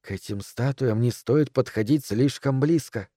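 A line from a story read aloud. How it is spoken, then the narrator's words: Whisper. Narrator (Russian): шепнула миссис Дэрроу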